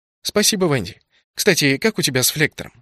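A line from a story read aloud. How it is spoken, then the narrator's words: Plain. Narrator (Russian): спросил я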